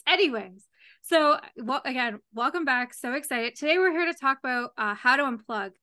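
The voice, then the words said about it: Hoarse, failing voice. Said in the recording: “I'm losing my voice again.”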